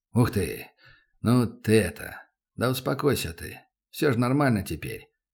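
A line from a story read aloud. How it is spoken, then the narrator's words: Awkward mumbling. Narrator (Russian): Неловко забормотал Добрынин, не зная, с какого бока подступиться к пацану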